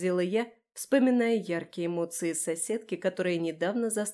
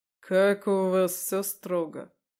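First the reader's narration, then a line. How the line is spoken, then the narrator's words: Snorting. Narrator (Russian): хмыкнул он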